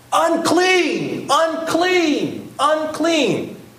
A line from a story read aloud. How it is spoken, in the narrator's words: shout